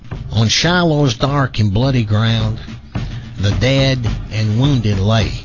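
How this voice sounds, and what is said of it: Nasal Southern accent, child-like. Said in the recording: “my fifth grade southern nasal hick accent”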